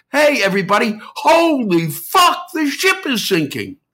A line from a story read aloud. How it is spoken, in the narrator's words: They stood up and yelled